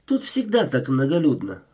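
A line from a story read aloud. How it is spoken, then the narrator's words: Inquiring. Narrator (Russian): она осведомилась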